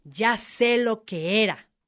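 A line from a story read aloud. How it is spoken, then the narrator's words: Plain. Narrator (Spanish): dijo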